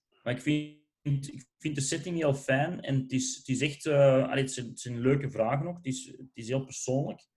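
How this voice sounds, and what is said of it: Antwerp Flemish accent. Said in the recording (Dutch): “mijn Antwerps accent”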